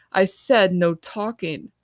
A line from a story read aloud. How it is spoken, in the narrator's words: Miss Wazer snaps at him